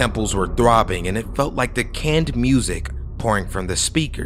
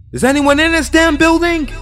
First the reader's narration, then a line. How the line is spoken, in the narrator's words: I screamed